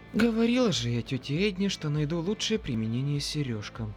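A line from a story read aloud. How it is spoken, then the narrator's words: Grumbling. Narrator (Russian): ворчала она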